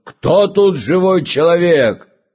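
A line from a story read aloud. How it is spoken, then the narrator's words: Loud fierce shout. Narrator (Russian): змей лютый влетел, и он крикнул громким голосом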